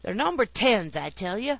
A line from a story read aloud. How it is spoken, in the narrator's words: roared Grandpa, nettled outrageously by this cutting taunt